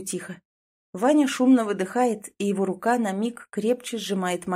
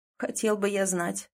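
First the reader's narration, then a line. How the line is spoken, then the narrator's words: Muttering. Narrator (Russian): бормочет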